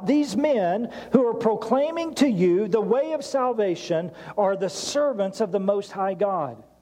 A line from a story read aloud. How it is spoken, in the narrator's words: she cried out